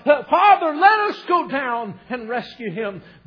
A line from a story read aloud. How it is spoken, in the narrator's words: they cried out